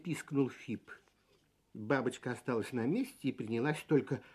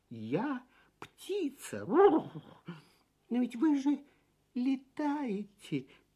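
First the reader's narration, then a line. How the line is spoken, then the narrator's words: Confused squeak. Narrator (Russian): Пискнул совершенно сбитый с толку Фип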